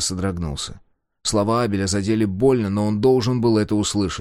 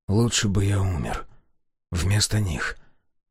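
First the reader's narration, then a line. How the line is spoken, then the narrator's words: Whisper. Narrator (Russian): прошептал он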